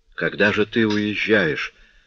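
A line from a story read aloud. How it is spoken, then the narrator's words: Dejected asking voice. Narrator (Russian): упавшим голосом спросил он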